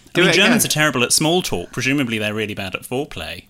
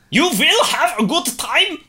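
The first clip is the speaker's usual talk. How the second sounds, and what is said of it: Put-on German accent. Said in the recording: “Doing the German accent again”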